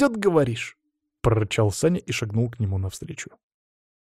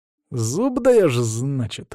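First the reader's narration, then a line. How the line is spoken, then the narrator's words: Insinuating, silky. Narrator (Russian): вкрадчиво проговорил Саня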